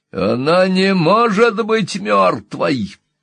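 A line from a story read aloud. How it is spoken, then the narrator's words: Screaming. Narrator (Russian): завопила Энни Уилкс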